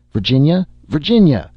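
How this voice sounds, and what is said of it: Hopeless, despairing calling out. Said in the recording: “in a hopeless voice.”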